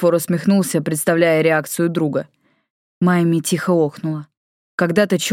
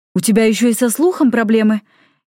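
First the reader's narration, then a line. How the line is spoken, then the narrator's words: Frightened question. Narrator (Russian): испуганно спросила Тора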